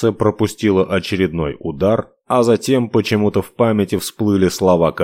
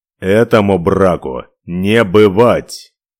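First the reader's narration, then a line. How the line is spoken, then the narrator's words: Growled. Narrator (Russian): Прорычал Ивар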